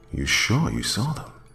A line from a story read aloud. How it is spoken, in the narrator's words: My voice was barely audible